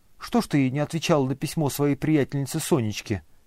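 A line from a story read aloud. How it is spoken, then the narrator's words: Plain. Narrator (Russian): спросил он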